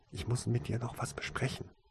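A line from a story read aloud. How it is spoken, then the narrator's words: Soft whisper. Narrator (German): flüsterte leise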